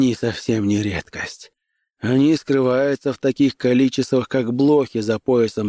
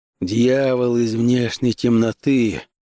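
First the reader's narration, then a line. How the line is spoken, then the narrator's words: Grumbled. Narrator (Russian): проворчал Конан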